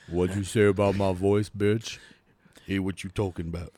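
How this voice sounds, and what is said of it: Very deep character voice. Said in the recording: “She's got a very deep voice.”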